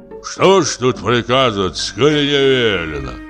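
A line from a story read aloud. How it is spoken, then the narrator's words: Grumbling. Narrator (Russian): проворчал коридорный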